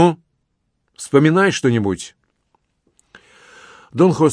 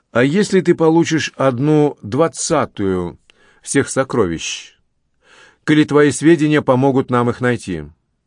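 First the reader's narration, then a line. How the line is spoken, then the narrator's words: Plain. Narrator (Russian): так сказал Кандесито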